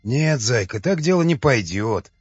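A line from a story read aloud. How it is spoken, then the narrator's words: Angry hiss, ogre. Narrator (Russian): Со злобой в голосе прошипел людоед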